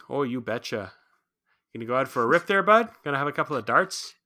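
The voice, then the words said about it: Small-town Canadian accent. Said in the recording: “the small town Canada thing... the accent”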